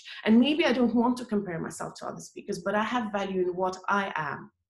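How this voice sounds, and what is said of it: Accented, quiet voice. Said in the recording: “I have an accent. And I speak in a quiet voice.”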